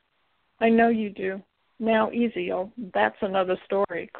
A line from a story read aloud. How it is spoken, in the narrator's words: Claire says, shaking her head and laughing